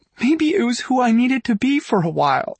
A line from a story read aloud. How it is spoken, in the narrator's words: she cries